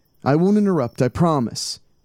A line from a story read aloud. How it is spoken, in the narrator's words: Tom called out into the night